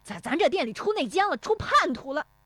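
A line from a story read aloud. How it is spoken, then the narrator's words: Frantic yelling. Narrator (Chinese): 石有福气急败坏的嚷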